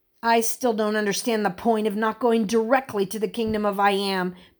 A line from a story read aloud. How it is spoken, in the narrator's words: Blake grumbled